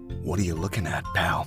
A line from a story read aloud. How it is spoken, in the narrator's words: he asked Ray in a scary, low voice